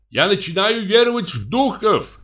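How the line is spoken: Shouted. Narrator (Russian): крикнул

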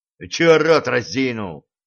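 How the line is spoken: Embarrassed barking. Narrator (Russian): рявкнул он на парня, стараясь скрыть смущение

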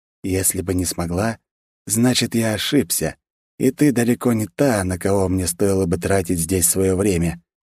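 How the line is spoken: Perfectly calm declaration. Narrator (Russian): абсолютно спокойно заявил Вальдемар

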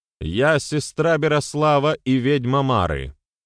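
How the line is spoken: Said loudly through megaphone. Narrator (Russian): громко произнесла в рупор Дарья

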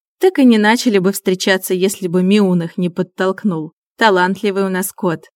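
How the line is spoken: Laughing woman. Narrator (Russian): рассмеялась Аня

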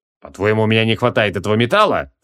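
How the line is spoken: Snorting. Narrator (Russian): фыркнул он

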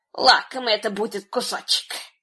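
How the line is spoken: Muttered to herself. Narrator (Russian): она пробормотала про себя

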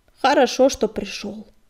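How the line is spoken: Gruff mumble. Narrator (Russian): буркнула она

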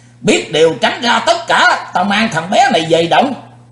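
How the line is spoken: Loud monster shout. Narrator (Vietnamese): Sư diện quái ma nhảy bổ tới quát lớn

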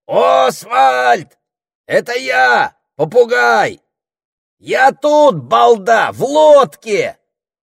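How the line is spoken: Parrot shouting through cupped wings. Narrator (Russian): Попугай приложил крылья к клюву и закричал

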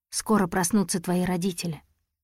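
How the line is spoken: Mumbling. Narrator (Russian): Я промямлил

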